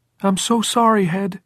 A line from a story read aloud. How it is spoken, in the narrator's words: Jordan cried in a breaking, treble voice